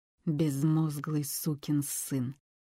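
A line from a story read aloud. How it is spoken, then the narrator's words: Senator through gritted teeth. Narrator (Russian): процедил сенатор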